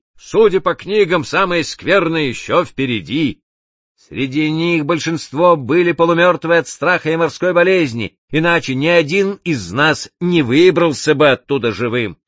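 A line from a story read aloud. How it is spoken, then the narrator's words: Plain. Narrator (Russian): сказал Джакс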